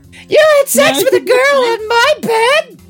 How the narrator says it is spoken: She screamed

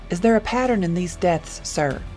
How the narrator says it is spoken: Chen asked, his voice steady despite the chilling revelations

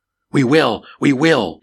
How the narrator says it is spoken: the crowd shouted in response

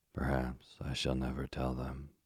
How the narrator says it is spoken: said Miss Waterlow sadly

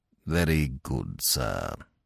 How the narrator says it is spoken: said Jeeves coldly

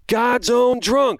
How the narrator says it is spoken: both of us yelled out during the next song break

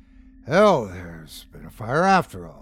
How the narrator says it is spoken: muttered Jonas, with an uneasy start

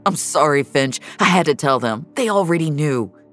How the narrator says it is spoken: Reza, clearly racked with guilt, blurted out

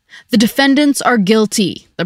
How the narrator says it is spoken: the prosecutor thundered

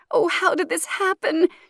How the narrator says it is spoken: She wails

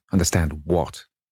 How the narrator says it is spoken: he asked angrily

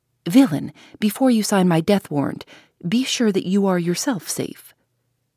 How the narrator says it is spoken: exclaimed

